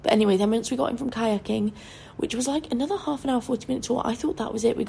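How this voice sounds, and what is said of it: Hoarse, failing sick voice. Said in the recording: “Oh, my voice is going. The tonsillitis is really fucking brutal. There's massive white spots all over my throat ... why my voice sounds awful”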